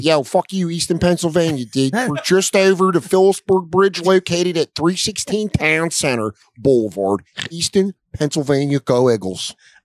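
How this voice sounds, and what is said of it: Put-on Boston accent. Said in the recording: “It's a Boston accent. ... That's actually more Baltimore.”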